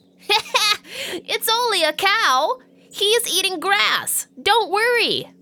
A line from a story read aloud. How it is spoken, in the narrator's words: laughs and says